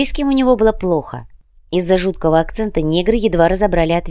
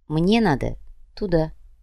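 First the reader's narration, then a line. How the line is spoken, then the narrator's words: Calm reply. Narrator (Russian): спокойно ответил незнакомец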